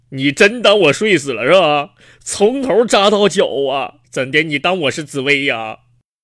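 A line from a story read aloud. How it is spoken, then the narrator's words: Loud angry scolding. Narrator (Chinese): 病人当时噌一下就坐起来了，大声就骂道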